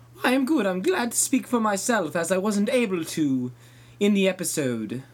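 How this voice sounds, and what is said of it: Fancy, affluent-sounding accent. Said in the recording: “based on your accent, I'm guessing you're not actually from the Washington area ... I'm fancy like the show Frasier ... I was detecting a little bit of some affluence in your voice”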